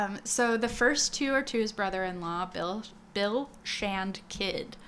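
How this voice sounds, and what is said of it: Usual voice. Nothing is said of it.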